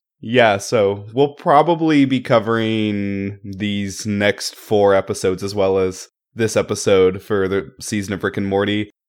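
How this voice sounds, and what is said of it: Sick-sounding voice. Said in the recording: “I'm ... because I'm sick. So please excuse my voice.”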